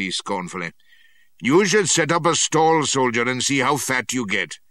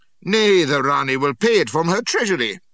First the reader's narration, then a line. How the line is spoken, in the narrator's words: says I, giving him my shrill sepoy giggle